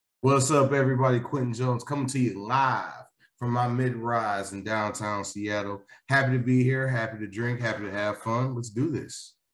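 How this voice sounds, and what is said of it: Announcer-style radio voice. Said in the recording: “I love how everyone put their radio voice on now.”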